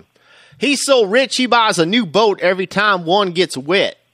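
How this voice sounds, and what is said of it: Weak put-on Southern accent. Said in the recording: “nice southern try on that accent ... No, it wasn't. It really wasn't.”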